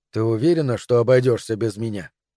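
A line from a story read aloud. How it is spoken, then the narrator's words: Plain. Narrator (Russian): спросил Джон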